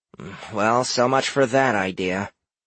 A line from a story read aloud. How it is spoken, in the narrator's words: grumbled Cora